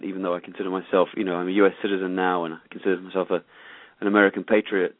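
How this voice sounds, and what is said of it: British accent. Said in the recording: “a bit of a funny accent... I definitely have the wrong accent... I'm originally from the U.K.”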